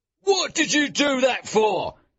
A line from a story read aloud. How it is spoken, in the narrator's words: he shouted at Wilde